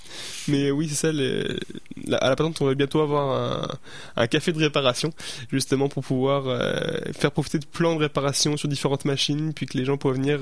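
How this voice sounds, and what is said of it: French accent. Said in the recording (French): “ton accent français”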